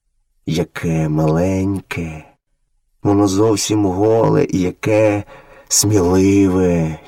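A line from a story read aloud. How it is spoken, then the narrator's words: Tender mother wolf. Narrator (Ukrainian): ніжно промовила мати-вовчиця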